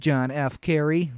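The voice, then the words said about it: Bad John F. Kennedy impression. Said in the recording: “That was a very bad Kennedy impression.”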